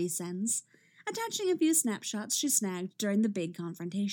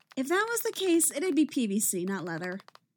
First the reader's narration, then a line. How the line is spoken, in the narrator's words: Iris says